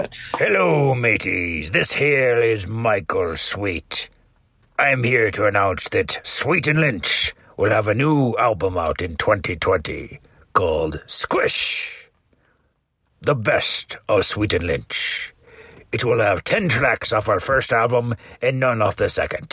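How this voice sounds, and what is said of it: Pirate voice. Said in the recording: “do a pirate impression”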